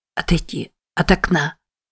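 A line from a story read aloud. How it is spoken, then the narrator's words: Hoarse. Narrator (Russian): прохрипела Мэтти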